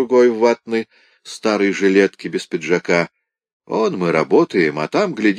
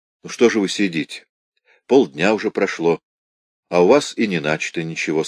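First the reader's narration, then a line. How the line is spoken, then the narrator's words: Plain. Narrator (Russian): сказал он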